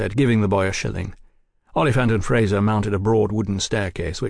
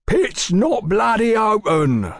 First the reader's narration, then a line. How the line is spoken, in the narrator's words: bellowed a fat man